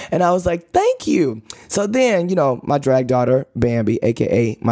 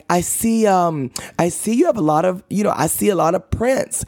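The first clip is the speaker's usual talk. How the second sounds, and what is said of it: Weak attempt at English accent. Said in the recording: “y'all know I can't do no English accent, but I'm trying... that ain't English... No, that's not English... envision an English accent”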